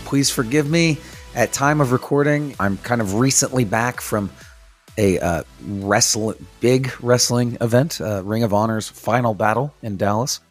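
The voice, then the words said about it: Hoarse, strained voice. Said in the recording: “despite how my voice may sound ... I did lose my voice letting Eddie Kingston know that I loved him”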